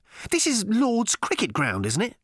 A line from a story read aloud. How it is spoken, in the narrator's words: snapped Arthur